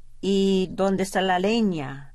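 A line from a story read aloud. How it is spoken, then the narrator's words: Plain. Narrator (Spanish): dijo ella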